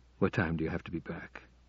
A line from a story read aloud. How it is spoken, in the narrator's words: asked, almost in a whisper